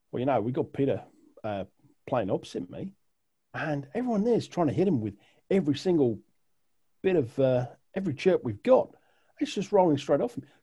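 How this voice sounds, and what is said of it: Deliberately poor put-on Australian accent. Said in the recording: “I apologize for my terrible Australian accent, but it's got to be done.”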